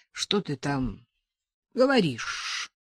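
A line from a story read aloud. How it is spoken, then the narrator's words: Hoarse rasp. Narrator (Russian): прохрипел он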